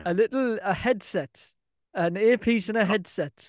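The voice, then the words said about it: Put-on Indian accent. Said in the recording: “you sound Indian.”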